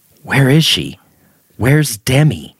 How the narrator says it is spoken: She muttered

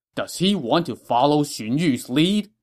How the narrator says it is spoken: Cao Cao said angrily

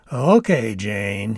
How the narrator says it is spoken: said, chuckling

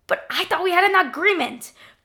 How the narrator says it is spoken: spat

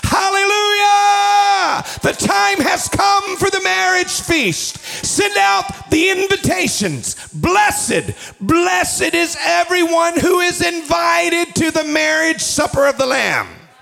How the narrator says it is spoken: the multitude shouting

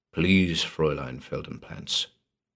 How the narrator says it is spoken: insisted gently

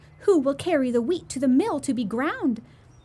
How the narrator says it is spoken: she called out

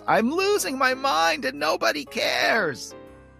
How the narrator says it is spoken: she screams

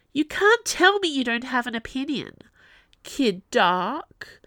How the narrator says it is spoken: whined, bratty little sister

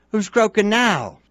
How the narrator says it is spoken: Bill demanded triumphantly

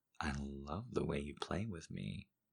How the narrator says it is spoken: I purred

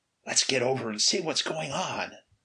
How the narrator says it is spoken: Unconsciously obeying the suggestion of the song, Ray whispered

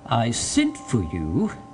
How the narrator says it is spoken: said he in a grandiloquent tone

